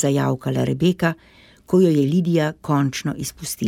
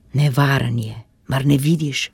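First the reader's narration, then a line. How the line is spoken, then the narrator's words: Hissing. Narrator (Slovenian): je siknila Lidija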